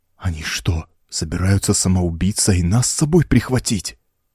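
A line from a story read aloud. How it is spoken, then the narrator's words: Terrified whisper. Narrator (Russian): в ужасе прошептал Маркли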